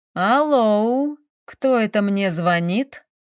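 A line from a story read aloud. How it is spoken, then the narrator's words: Drawling male voice. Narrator (Russian): протянул мужской голос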